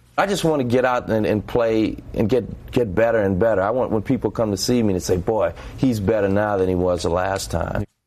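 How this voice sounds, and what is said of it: New Orleans accent. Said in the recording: “Man, my New Orleans accent.”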